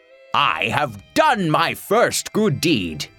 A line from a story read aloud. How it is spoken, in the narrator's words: exclaimed Don Quixote